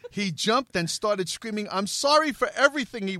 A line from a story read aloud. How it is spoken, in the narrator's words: he wailed